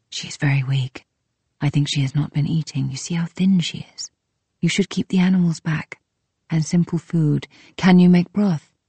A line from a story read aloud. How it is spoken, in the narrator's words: whispering